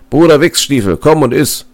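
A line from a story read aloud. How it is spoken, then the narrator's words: Called out. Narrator (German): rief er dem Jäger zu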